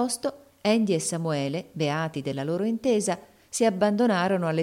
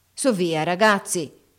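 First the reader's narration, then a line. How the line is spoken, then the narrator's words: Shouting. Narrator (Italian): gridò Haley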